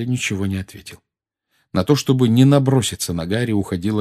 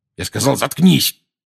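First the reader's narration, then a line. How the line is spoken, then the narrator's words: Angry bark. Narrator (Russian): рявкнул Дадли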